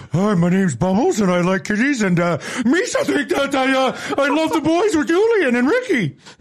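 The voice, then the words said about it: Cartoonish character voice impression. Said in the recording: “my Bubbles impression doing a Jar Jar impression ... so I'd have to start with Bubbles and then get into Jar Jar”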